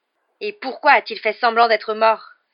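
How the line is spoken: Furious exclamation. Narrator (French): s'écria-t-il avec fureur

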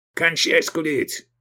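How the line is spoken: Gruff bark, burly man. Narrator (Russian): рявкнул Тураб Мирзаев, коренастый и плотный верзила

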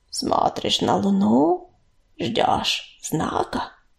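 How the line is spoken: Creaky voice. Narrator (Russian): проскрипел он

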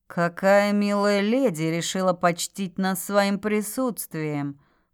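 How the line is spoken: Purring. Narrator (Russian): Промурлыкал темноволосый

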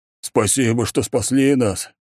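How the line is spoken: Plump merchant exclaiming. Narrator (Russian): воскликнул пухлый бородатый купец

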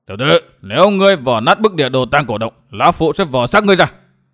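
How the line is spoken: Shout. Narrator (Vietnamese): Miêu Sơn Nhất Quái quát

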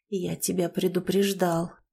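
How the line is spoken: Hoarse voice. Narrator (Russian): хриплый голос Суворова

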